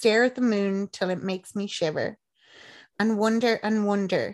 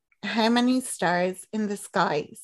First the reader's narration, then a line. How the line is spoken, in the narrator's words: said he